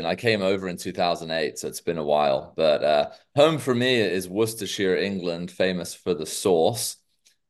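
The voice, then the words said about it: Americanized British accent. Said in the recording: “my very Americanized British accent”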